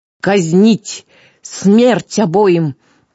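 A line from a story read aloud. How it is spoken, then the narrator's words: Roared like enraged beast. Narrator (Russian): точно разъяренный зверь взревела правительница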